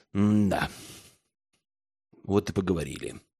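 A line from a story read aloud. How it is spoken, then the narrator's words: Muttered into emptiness. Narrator (Russian): пробормотал Герман в пустоту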